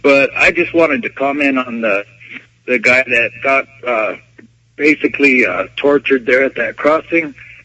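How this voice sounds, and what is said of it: Sick, strained voice. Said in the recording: “Excuse my voice. I'm getting over some pneumonia.”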